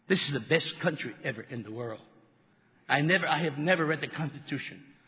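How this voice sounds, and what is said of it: Foreign accent. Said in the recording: “I'm an immigrant ... I do have an accent. I'm proud of my accent”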